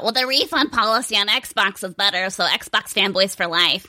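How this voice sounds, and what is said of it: Imitates a gaming fanboy's voice. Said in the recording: “that was a really good impression”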